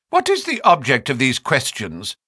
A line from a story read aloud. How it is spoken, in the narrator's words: She asked sharply